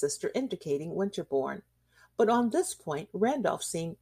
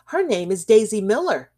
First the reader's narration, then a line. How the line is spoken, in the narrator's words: cried the child